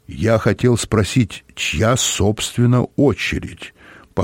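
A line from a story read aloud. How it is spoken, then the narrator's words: Calm. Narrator (Russian): по-прежнему спокойно сказал Олаф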